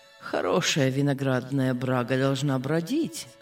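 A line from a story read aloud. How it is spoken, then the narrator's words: Calm, smiling father. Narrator (Russian): говорил спокойно, улыбаясь отец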